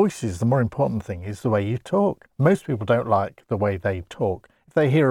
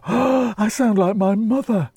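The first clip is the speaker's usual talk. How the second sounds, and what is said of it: Wheezy, asthmatic-sounding imitated voice. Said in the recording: “your impression made it sound the mother was highly asthmatic”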